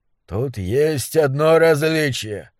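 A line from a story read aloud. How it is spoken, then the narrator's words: Hoarse old man's voice. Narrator (Russian): прохрипел старый монстролог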